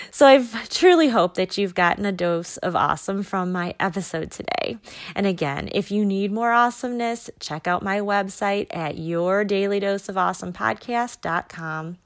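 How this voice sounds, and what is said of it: Tired-sounding voice. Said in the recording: “I'm getting really tired. so you can probably hear that in my voice.”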